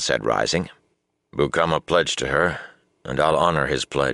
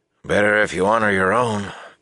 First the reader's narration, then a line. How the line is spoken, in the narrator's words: Bukama grumbled